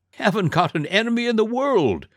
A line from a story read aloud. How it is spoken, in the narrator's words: said the dragon cheerfully